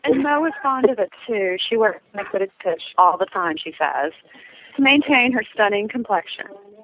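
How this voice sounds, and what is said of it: Put-on Kentucky Southern accent. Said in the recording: “your Kentucky accent that you're pulling off here ... for a person from England ... I can do a whole range of Southern accents.”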